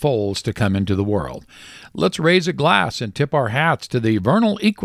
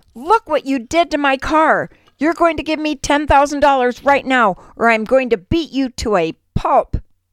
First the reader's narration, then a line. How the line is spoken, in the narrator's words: He yells